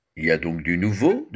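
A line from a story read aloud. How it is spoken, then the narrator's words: Plain question. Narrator (French): demanda-t-il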